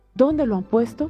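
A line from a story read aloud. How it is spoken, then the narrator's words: Plain. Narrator (Spanish): preguntó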